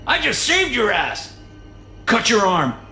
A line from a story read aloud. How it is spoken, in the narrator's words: yell